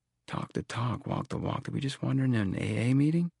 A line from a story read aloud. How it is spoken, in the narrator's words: Tom leaned close to me and whispered